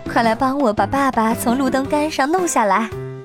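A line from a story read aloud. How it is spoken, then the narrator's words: Sighing. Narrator (Chinese): 妈妈叹了口气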